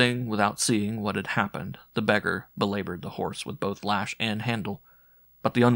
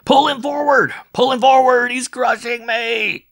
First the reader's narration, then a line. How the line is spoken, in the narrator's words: In a voice of agony, he shouted